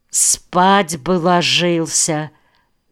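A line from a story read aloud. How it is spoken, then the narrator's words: Gentle. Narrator (Russian): мягко сказал Рулев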